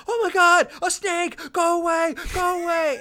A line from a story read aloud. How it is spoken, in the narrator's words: He starts screaming